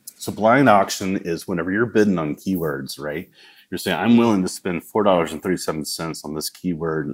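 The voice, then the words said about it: Southern American accent. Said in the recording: “that's my southern accent.”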